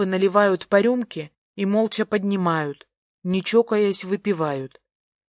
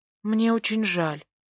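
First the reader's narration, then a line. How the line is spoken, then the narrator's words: Quiet awkward apology. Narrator (Russian): произношу я негромко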